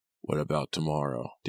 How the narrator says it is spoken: Danny asked in a low voice

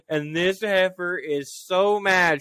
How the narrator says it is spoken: she yelled at me

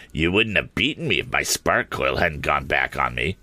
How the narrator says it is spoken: said somewhat sneeringly

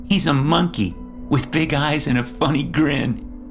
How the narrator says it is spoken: Micah said, giggling

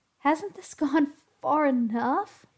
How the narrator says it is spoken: pleaded Zach

